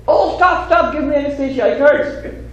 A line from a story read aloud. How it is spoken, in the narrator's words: the Swami shouted